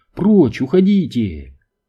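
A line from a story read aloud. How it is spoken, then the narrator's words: Pleading shout. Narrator (Russian): Мэнни кричал просительным голосом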